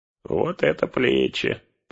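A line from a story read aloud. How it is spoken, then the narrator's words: Grumbling. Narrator (Russian): проворчал он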